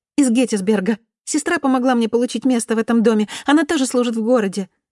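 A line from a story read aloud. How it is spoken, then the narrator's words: Cheerful rapid chatter. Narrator (Russian): затараторила Салли, чья жизнерадостная натура, видимо, стосковалась по компании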